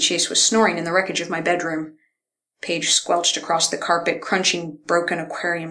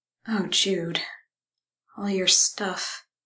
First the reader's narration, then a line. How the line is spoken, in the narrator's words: murmured